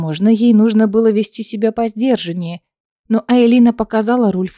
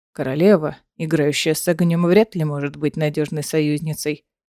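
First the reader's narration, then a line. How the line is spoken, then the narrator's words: Grim pronouncement. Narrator (Russian): мрачно изрек Рульф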